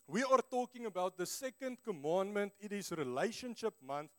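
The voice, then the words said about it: Afrikaans-accented English. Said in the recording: “my English speaking skills is about as good as my motorcycle driving skills ... Not too great ... excuse my very sexy Afrikaans accent”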